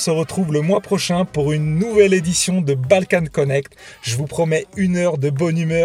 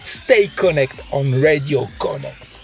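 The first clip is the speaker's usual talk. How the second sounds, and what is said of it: Put-on heavy American accent. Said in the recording (French): “avec son gros accent américain”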